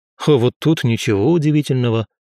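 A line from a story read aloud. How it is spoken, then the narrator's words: Wry snort. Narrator (Russian): хмыкнул я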